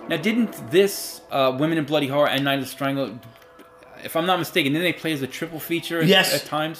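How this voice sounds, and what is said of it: New York accent. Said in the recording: “excuse my New York accent.”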